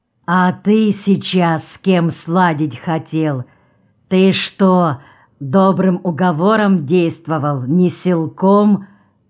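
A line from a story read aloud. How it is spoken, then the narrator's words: Menacing question. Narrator (Russian): грозно спросил Артем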